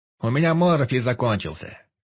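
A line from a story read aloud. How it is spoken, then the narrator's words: Shouted reply. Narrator (Russian): крикнул ему в ответ Пилюлькин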